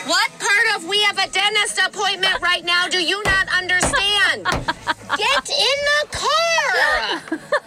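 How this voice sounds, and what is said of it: Screaming, yelling loudly. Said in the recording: “Why am I screaming”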